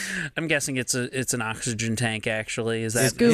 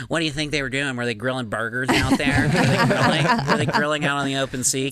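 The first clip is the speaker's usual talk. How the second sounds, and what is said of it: Impression of another person's voice. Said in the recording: “good Joe Robinson impression”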